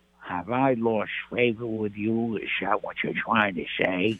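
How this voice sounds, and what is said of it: Imitates another person's voice. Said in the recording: “that's a spot on impersonation... excellent. Really good.”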